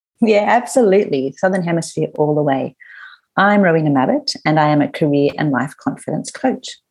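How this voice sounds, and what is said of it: Australian accent. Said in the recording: “the lady behind that Australian accent”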